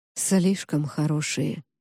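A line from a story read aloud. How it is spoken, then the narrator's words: Mumble. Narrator (Russian): пробормотал Август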